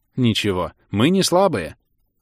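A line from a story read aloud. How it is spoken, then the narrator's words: Cheerful, smiling count. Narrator (Russian): бодро улыбнулся граф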